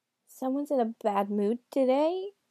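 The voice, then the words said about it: Old grandmother voice. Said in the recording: “in his best grandmother voice.”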